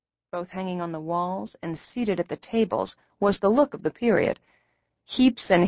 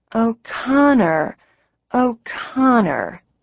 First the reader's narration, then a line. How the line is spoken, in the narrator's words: murmured, pleased to have learned a new word